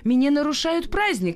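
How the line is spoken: Desperate shouting. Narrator (Russian): кричал он, полный отчаяния

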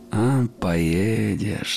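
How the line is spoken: Mocking whistling. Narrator (Russian): насмешливо насвистывала

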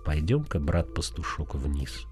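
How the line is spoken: Gentle, affectionate. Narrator (Russian): Беденко ласково сказал

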